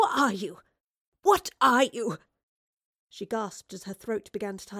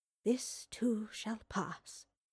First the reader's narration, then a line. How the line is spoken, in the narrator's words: she whispered to herself